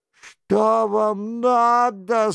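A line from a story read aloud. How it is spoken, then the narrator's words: Trembling voice. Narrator (Russian): спросил приор дрожащим голосом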